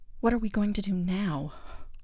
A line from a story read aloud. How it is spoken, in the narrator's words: I sighed